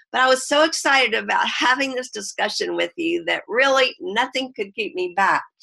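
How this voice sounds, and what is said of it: Voice slightly sick, under the weather. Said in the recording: “forgive my voice, I've been a little under the weather myself ... if I do have a little coughing spell”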